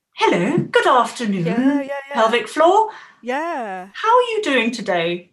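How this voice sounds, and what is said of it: Silly put-on voice. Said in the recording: “I'm making a silly voice”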